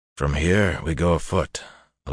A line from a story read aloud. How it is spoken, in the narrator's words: Elias announced in a quiet voice that barely carried over the occasional stamp of a horse's hoof